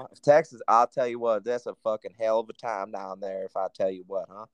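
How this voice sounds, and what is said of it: Put-on Texas twang. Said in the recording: “Don't ever fucking talk with that accent again. ... I got a little bit of a twang”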